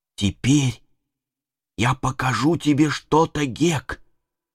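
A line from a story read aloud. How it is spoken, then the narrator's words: Whisper. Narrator (Russian): Том прошептал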